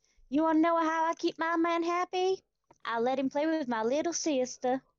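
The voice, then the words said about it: Deliberately bad American accent. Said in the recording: “I'm going to do this in a really, really bad American accent”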